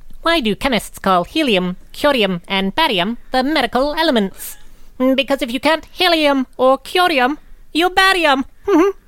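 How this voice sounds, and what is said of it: Heimerdinger cartoon character voice impression. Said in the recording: “He is really good at the Heimer impression.”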